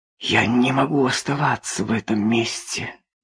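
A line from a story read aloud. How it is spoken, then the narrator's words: Whisper. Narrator (Russian): зашептала Трейси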